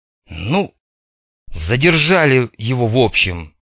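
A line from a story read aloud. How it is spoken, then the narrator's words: Forced, hesitant. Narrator (Russian): выдавил, наконец, Рыжик, не решившись сказать о том, каким образом они задержали Седова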